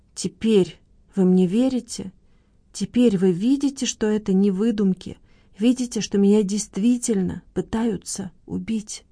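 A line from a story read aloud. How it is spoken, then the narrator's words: Trembling voice. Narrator (Russian): проговорила дрожащим голосом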